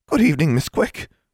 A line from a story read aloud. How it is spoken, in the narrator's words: she said cheerfully